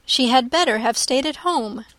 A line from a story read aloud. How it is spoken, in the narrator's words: cried Elizabeth